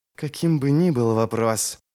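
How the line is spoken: Hissed into ear. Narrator (Russian): прошипел Ярви ему в ухо

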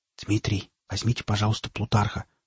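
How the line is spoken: Whispering. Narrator (Russian): шепотом проговорил Александр

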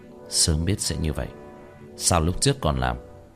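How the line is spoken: Muttering. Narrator (Vietnamese): Tiểu Thất lẩm bẩm

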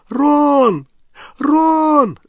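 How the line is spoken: Calling, nearly sobbing. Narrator (Russian): звала Гермиона, уже почти рыдая

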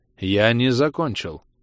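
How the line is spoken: Cold interruption. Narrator (Russian): холодно перебил Гриффит

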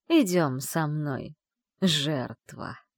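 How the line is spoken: Creaky witch's voice, close. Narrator (Russian): проскрипел над ухом голос ведьмы

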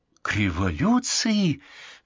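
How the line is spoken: Exclamation. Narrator (Russian): воскликнула Лора

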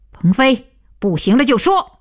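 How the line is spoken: Loud. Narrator (Chinese): 徐东福 大声道

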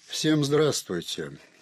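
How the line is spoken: Dry. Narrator (Russian): сухо проговорила она

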